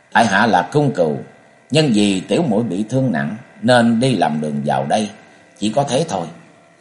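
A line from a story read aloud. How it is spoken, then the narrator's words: Cold reply. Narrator (Vietnamese): Cung Cừu lạnh lùng đáp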